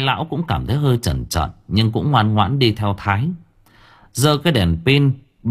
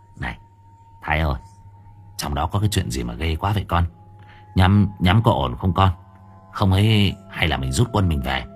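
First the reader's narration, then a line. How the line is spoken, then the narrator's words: Trembling. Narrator (Vietnamese): Bảy Cò run rẩy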